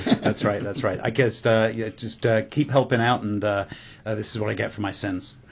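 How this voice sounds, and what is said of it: English accent. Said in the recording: “that accent, that is English, right?”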